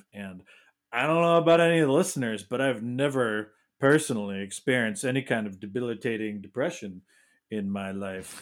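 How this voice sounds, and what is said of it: Sarcastic deadpan delivery. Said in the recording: “hear the sarcasm in my voice?”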